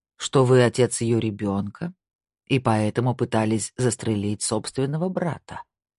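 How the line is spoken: Dry. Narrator (Russian): сухо сказал Снейдер

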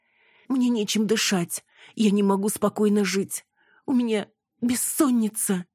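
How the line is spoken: Sobbing. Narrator (Russian): всхлипнула Яна

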